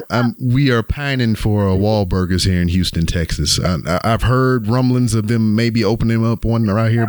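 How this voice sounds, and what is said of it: Texas accent. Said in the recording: “I thought I heard a Texas accent.”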